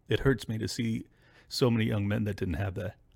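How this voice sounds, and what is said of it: Choked-up, emotional voice. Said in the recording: “I don't know why I'm getting choked up. ... I don't know why I'm getting choked up.”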